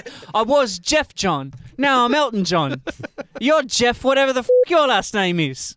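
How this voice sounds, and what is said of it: Put-on accent. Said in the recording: “I don't know what accent I'm doing”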